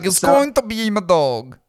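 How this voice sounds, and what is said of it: Made-up mixed foreign accent. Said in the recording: “What accent was that? ... part Italian, part fucking Mandarin. ... Maybe Southeast Asia somewhere. ... Philippines. ... you just made up a new accent, and I was able to replicate it.”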